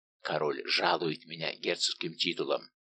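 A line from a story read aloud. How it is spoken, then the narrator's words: Mysterious whisper in ear. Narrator (Russian): таинственно прошептал, наклонившись к уху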